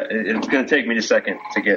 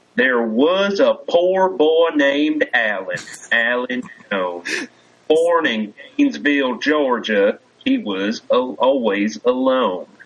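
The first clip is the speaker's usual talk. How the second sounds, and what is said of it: Put-on Southern twang accent. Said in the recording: “I know how to do twang ... get into the accent”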